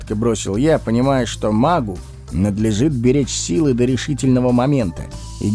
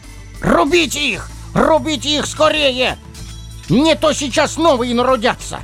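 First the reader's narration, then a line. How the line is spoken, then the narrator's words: Panicked screaming at full voice. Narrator (Russian): Благим матом заорал Ропша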